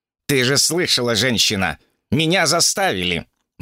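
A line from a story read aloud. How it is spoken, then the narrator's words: Gloomy reply. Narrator (Russian): мрачно отозвался царь обезьян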